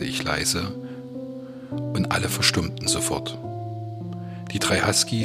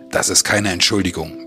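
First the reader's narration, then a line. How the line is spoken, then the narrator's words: Barked. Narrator (German): bellte Nanook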